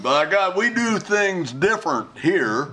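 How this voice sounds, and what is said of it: Put-on Southern American accent. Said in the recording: “that kind of accent is pejorative ... if they land in the South”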